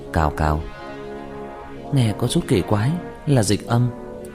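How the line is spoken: Muttering. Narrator (Vietnamese): Diệp Thiếu Dương lẩm bẩm

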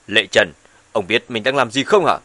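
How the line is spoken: Woman's angry shout. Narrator (Vietnamese): Bà ta quát

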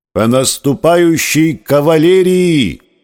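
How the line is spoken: Hoarse breaking shout. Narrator (Russian): Голос, осипши, срываясь, прокричал

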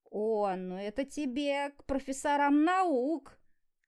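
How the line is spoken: Mocking laugh. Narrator (Russian): глумливо рассмеялась Карина

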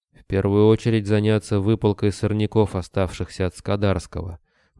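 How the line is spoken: Gruff mutter. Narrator (Russian): буркнул Рыжий

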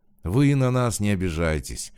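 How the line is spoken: Conciliatory. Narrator (Russian): примиряющим голосом ответил Кощеев

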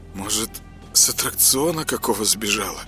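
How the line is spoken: Mumbled guess. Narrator (Russian): промямлил он свое предположение

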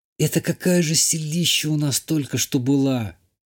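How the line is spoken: Whisper. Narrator (Russian): прошептала Ишта

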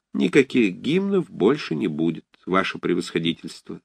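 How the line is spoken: Calm answer. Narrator (Russian): спокойно ответил Сашка

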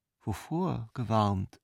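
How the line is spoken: Slow question. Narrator (German): fragte die Ultima langsam

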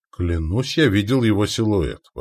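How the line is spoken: Exclaiming. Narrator (Russian): воскликнул Рыжий

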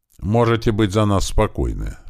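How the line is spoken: Calm. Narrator (Russian): спокойно сказал ему Андрей

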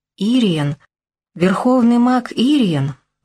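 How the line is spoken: Breathless exclamation. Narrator (Russian): выдохнула

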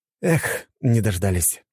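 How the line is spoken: Sighing. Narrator (Russian): вздохнул я

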